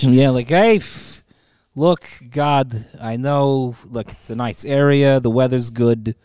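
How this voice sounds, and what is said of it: Put-on Jewish accent. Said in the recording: “It's a good Jewish impression.”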